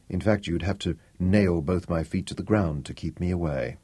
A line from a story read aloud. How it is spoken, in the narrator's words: he muttered